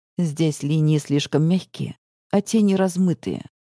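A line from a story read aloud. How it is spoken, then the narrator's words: Low voice. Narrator (Russian): произносит низким голосом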